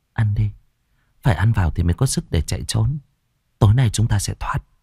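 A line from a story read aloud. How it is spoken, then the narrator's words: Nervous, reassuring. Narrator (Vietnamese): Tôi khẽ nuốt nước bọt rồi trấn an bọn nhỏ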